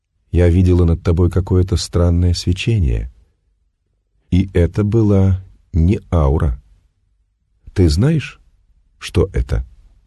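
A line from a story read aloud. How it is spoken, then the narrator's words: Affectionate, medium speaking. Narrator (Russian): Медиум ласково произнесла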